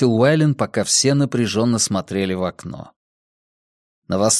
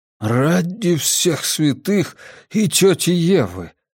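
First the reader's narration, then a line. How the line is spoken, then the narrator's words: Loud exhale. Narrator (Russian): шумно выдохнул он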